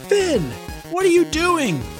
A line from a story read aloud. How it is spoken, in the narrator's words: shouted Juliana as they climbed into the sky